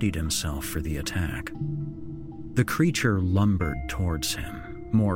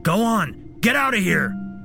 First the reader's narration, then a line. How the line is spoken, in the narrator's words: he shouted